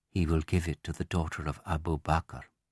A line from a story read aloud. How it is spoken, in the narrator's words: Some of the wives began to whisper wryly to each other